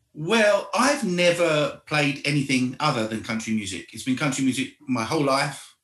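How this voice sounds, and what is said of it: Mild accent. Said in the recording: “there's a mild accent that you have”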